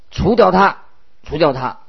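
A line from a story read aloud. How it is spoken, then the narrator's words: Crowd shouting. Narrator (Chinese): 众人跟在后面喊着说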